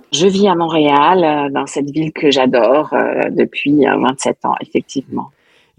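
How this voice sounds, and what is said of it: Slight Québécois French accent. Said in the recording (French): “on décèle un, un petit accent québécois ... le phrasé de mon français est empreint de dynamique québécoise”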